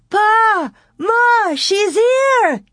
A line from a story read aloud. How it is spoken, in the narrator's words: She kept on calling Pa shouted to Ma far in the tall grass